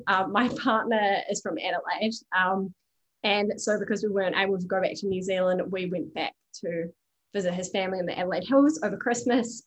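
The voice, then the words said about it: New Zealand accent. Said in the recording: “I'm Kiwi, as you can probably tell from my accent.”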